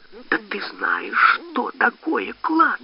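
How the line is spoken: Hissing. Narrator (Russian): зашипела Зинаида

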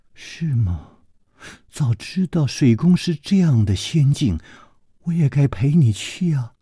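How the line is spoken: Soft sigh. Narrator (Chinese): 李红秀轻轻地叹了一口气说

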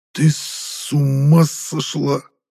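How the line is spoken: Furious old man hissing. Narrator (Russian): прошипел сквозь плотно сжатые зубы побагровевший патриарх

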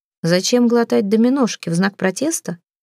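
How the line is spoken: Plain. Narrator (Russian): спросил он

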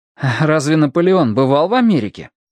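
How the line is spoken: Skeptical hum. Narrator (Russian): хмыкнул

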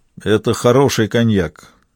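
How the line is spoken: Gloomy. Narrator (Russian): мрачно сказал он

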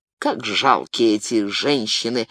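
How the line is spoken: Timid mutter. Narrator (Russian): пробормотал кардинал, сам не из храброго десятка

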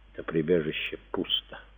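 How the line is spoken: Whisper. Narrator (Russian): прошептала Беронис

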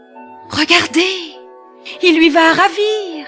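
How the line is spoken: Messenger exclaiming. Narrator (French): s'écria un messager

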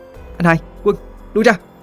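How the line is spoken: Shouting. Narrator (Vietnamese): Cô Tư hét lên

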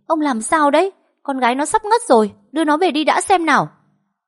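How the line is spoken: Hurried, irritated snap. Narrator (Vietnamese): Bà Hòa vội vã lao đến gắt lên

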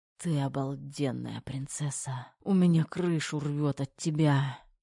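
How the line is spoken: Passionate whisper. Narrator (Russian): жаркий шепот

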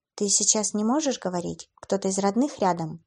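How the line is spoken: Young woman asking. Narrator (Russian): поинтересовалась девушка

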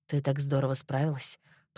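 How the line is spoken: Muttered. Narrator (Russian): пробормотал он

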